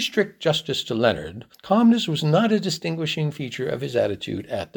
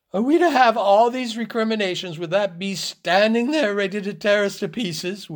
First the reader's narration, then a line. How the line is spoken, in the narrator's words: wailed Mavis indignantly